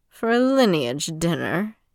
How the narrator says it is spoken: Yon returned and scoffed

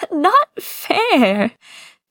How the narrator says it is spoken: Zichen complains between giggles

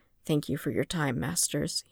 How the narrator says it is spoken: he murmured

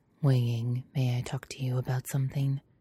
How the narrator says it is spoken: usually just quietly says

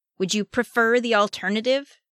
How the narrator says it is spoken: Raphael snapped

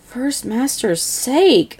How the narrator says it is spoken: Skylar mutters

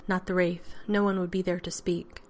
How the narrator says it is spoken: Shinabi added gravely

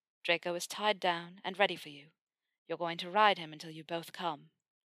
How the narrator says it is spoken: he purred

